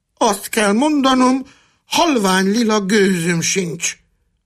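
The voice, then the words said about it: Fool's voice in falsetto. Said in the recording (Hungarian): “mondta a bolond fejhangon”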